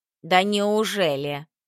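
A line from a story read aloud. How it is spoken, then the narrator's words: Mocking tongue click. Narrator (Russian): Яринка насмешливо подсокала языком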